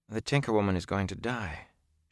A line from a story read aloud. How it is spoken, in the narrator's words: she said softly